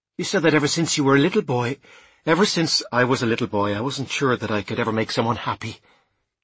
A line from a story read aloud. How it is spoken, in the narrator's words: I said quickly, dismissing the entire thing